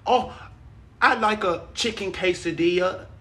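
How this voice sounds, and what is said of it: Attempted English accent. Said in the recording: “This will probably be my normal English accent ... I can't even do it anymore”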